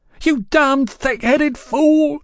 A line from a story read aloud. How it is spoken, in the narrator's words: screeched